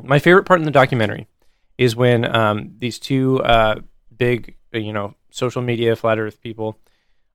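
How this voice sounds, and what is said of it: Hoarse, worn-out voice. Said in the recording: “I've been talking all day. My throat, my voice is like gone”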